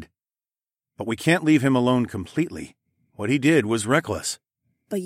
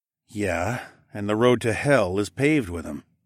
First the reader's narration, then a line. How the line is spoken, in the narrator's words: I muttered